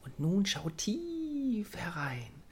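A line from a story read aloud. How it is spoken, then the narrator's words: Pixie's mysterious whisper. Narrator (German): flüsterte das Pixie geheimnisvoll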